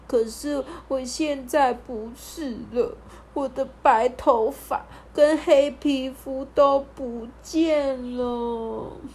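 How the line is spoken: Weeping princess. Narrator (Chinese): 公主就哭哭啼啼的说

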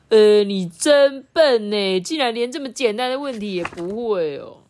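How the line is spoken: Teasing. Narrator (Chinese): 小杜也马上取笑他说

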